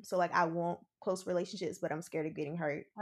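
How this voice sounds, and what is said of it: Accent, 'want' sounds like 'won't'. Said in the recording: “Oh, that's that accent. Won't. Want.”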